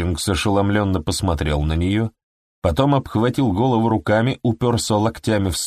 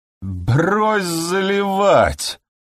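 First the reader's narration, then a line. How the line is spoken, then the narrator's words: Strained, forced words. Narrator (Russian): выдавил из себя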